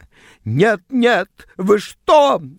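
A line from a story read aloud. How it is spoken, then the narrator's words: Shrieked. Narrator (Russian): взвизгнула она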